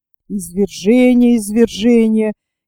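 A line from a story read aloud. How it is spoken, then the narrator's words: Displeased grumbling. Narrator (Russian): недовольно проворчал Пенкроф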